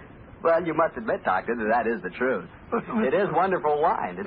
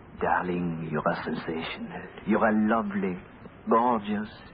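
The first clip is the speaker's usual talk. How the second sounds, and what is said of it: Whispered put-on French accent. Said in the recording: “whispering in my fine French accent,”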